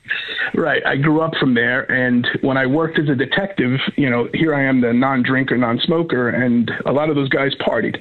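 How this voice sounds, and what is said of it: Non-Pennsylvania regional American accent. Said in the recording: “you could tell you're not from Pennsylvania. You've got a different accent.”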